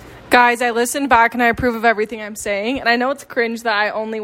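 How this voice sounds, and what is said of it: Usual voice. Nothing is said of it.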